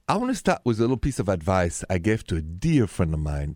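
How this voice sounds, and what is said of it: French accent. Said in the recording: “the accent, French”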